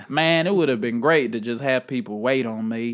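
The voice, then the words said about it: Put-on American southern accent. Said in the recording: “I always go into a southern accent.”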